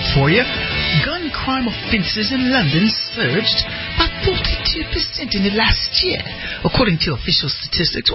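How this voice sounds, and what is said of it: Put-on British accent. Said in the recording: “I'm mixing up my British accents. See, there's this crazy British accent that's like this”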